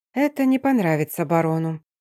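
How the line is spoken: Quiet mutter to herself. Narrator (Russian): тихо пробормотала себе под нос

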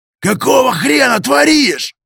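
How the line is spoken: Caterpillar yelling. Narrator (Russian): Завопил гусеница

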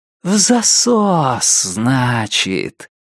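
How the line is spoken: Velvety singsong. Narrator (Russian): пропел Лестер своим новым бархатным голосом

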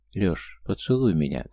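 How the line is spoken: Girl's demanding whisper. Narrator (Russian): требовательно зашептала девушка

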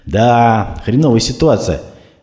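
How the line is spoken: Heavy sigh, weary. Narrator (Russian): тяжело вздохнув, ответил Прохоров

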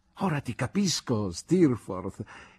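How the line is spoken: Exultant exclamation. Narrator (Italian): esclamai esultante

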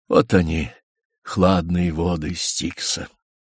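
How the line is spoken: Slow, heavy, wheezing. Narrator (Russian): Тяжело, с хрипом вздыхая, он медленно произнес

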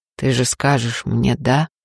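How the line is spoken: Unexpectedly hoarse question. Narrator (Russian): спрашивает неожиданно сиплым голосом

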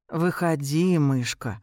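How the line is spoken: Gentle, affectionate tone. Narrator (Russian): говорит он ласковым тоном

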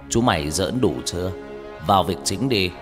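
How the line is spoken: Stern, loud old man. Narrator (Vietnamese): Ông mười họa lúc này mới nghiêm giọng nói lớn

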